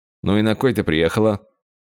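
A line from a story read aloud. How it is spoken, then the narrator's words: Displeased question. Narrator (Russian): Гаррет спросил действительно недовольным тоном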